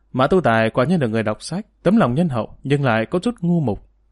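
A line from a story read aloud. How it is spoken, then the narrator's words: Sighing. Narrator (Vietnamese): Thành Khởi Vận thở dài một tiếng, nói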